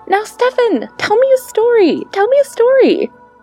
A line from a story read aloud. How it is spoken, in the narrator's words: his little sister, Militsa, cried